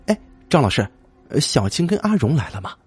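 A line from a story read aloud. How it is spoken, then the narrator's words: Hurried question. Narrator (Chinese): 君急忙问道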